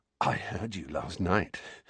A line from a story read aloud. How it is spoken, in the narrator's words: said Dudley breathlessly